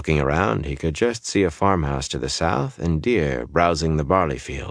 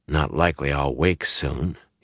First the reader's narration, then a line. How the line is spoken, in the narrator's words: muttered to himself